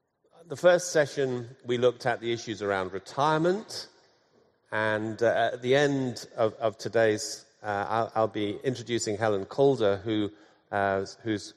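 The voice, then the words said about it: Hoarse, croaky throat. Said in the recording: “I've got a bit of a frog in my throat this morning, so if I cough from time to time.”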